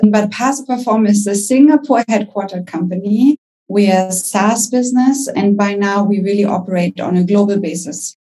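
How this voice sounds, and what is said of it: German-accented English. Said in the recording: “I'm German. You can probably hear it by my accent.”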